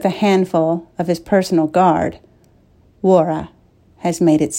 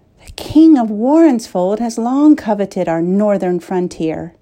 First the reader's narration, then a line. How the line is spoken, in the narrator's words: Aina sighed